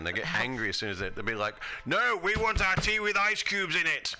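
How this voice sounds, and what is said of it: English accent. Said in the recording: “what's the English accent?”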